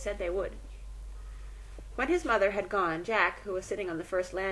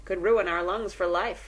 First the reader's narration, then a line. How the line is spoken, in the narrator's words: one said